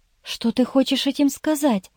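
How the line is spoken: Pale whisper. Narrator (Russian): прошептала Ирен заметно бледнее

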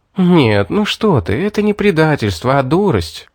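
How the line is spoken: Plain. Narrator (Russian): сказала Кира

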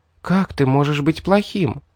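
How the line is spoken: Quiet question. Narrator (Russian): тихо спросила Ребекка

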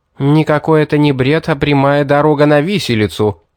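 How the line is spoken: Harsh bark, old woman. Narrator (Russian): рявкнула старая хищница

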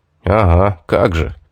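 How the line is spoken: Confused mutter. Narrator (Russian): буркнул я, опять сбитый с толку зверюгой

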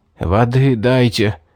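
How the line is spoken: Hoarse wheeze. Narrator (Russian): Просипел

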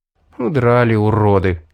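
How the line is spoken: Sigh. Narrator (Russian): вздохнул

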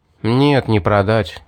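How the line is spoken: Sigh. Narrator (Russian): вздохнул я

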